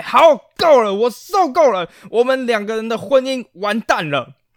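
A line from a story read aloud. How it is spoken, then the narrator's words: Angry roar. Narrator (Chinese): 愤怒以及大吼了出来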